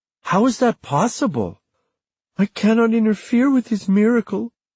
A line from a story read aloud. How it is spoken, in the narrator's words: Marisita said with a little sob in her voice